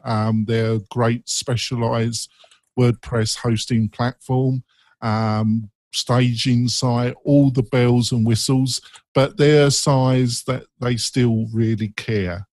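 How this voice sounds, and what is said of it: Speaker's own English accent. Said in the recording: “they even understand my English accent”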